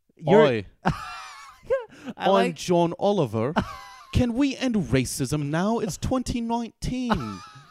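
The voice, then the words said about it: Half-baked English accent, John Oliver impression. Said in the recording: “I like English accents in general. ... Do yours. ... your impression of everybody, and it would be the same half-baked English accent”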